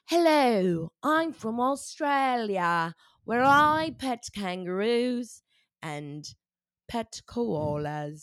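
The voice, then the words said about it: Put-on Australian accent. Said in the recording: “Let's hear your Australian accent. Can't wait for this impression.”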